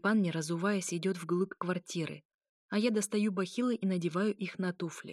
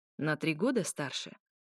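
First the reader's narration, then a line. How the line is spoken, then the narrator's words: Snide snort. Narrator (Russian): ехидно хмыкает Степан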